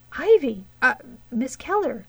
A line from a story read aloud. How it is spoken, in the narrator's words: he exclaimed